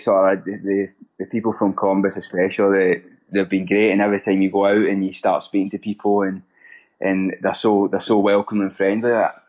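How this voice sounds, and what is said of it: Speaks with an unfamiliar foreign accent. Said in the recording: “they automatically ask where I'm from, because they've never heard they've never really heard my accent before”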